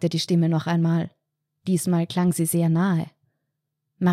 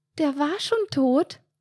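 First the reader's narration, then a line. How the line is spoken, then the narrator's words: Squeaked. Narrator (German): piepste Marianne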